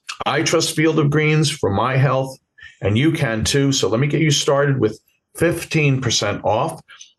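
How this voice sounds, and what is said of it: Bronx New York accent. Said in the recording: “my Bronx accent”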